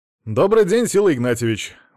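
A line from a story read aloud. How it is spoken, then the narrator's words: Cheerful. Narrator (Russian): бодро сказал Алексей Леонидов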